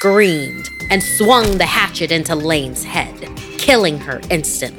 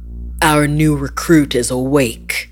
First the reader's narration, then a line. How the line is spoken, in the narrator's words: he growled